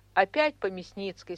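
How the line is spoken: Plain. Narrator (Russian): спросила я

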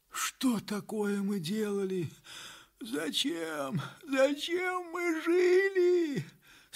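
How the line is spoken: Sick man moaning. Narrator (Russian): стонал между тем больной

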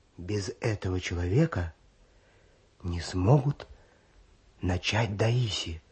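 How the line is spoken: Male voice dropping to whisper. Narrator (Russian): произнес мужской голос, снижаясь до шепота

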